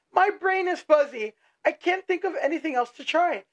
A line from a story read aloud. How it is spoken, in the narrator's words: yelled